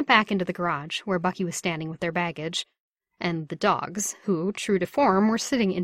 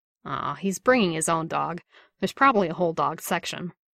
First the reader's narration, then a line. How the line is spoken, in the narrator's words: Bucky said, with a groan of enlightenment